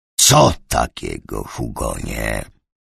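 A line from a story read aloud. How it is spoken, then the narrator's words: Hissed. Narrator (Polish): syknął Fogelbrand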